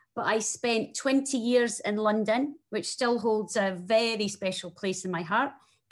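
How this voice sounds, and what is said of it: Very strong Scottish accent. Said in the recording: “you can hear from my very strong Scottish accent that I am Scottish”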